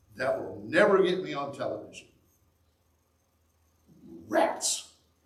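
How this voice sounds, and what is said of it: Sarcastic delivery. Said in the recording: “that was sarcasm ... rats was sarcasm”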